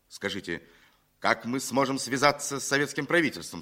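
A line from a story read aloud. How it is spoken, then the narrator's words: Plain. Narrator (Russian): спросил генерал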